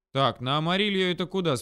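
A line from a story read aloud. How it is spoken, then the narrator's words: Plain. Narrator (Russian): спросил я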